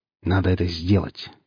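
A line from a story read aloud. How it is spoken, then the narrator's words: Stern, confident self-talk. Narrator (Russian): говорил он себе грозно и уверенно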